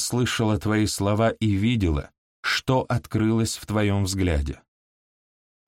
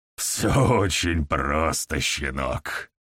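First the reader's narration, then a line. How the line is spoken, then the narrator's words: Grumble. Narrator (Russian): проворчал Гаур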